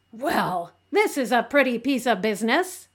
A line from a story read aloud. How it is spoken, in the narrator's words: exclaimed Marilla